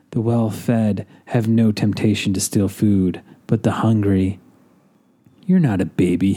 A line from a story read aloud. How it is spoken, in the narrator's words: he whispered